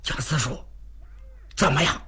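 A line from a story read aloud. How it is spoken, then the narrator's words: Panting question. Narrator (Chinese): 徐良一边喘气一边问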